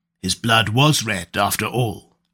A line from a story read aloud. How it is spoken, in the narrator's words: grunted Conan